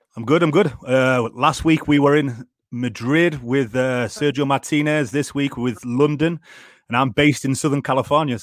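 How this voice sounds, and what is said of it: North Yorkshire English accent. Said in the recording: “where's your accent from? Because you ain't American. ... I'm from North Yorkshire, near near York and Darlington”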